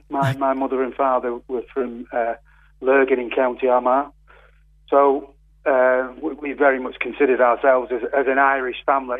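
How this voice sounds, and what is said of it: Mancunian accent, not Cork. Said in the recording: “you probably tell from the accent, I'm not a Cork man. ... I'm an Irish Mancunian.”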